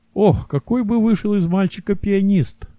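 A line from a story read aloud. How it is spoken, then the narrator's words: Sighing. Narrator (Russian): вздохнул Ашкенази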